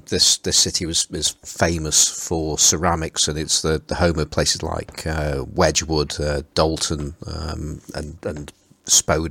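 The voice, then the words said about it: Stoke-on-Trent Potteries English accent. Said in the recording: “it's a pleasure to hear your accent... Pottery's accent. That's that's the other way of saying my accent.”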